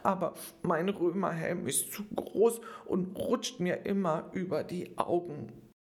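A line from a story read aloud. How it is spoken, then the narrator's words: Boy sobbing. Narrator (German): schluchzte der Junge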